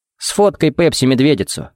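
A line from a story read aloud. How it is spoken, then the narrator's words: Amused snort. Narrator (Russian): хмыкнул Джаред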